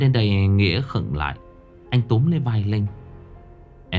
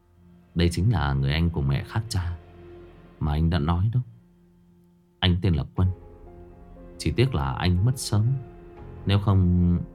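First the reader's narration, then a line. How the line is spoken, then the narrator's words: Smiling voice. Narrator (Vietnamese): Nghĩa mỉm cười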